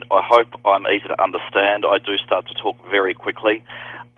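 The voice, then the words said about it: Australian accent. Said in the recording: “I am Australian, and you will tell that by my accent.”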